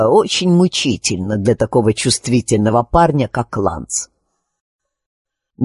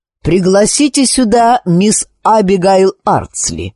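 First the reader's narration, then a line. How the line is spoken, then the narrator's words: Plain. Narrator (Russian): говорит он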